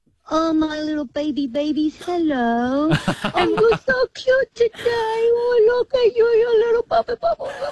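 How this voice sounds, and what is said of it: Baby voice. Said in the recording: “talk to us in a baby voice.”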